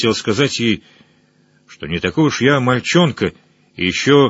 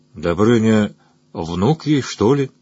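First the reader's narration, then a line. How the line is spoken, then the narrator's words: Lazy reply from afar. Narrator (Russian): отозвался лениво из другого угла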